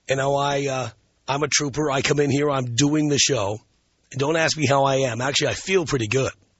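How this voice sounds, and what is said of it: Hoarse, worn-out voice from a cold. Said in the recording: “my voice is shot ... I'm in that latter stage of a cold or the crud where I sound a lot worse than I am.”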